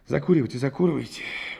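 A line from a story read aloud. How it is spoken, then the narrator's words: Gruff mutter. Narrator (Russian): буркнул Рябинин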